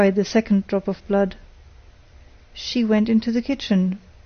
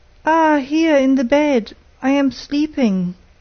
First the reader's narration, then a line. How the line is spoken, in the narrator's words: cried the third drop of blood